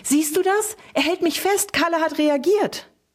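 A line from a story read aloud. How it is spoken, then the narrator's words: Calling out. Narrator (German): rief sie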